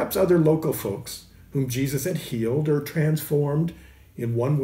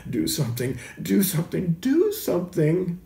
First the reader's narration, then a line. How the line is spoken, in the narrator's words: His mother probably wringing her hands and groaning